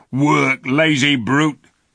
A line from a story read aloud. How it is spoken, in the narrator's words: shouted one of the Calormans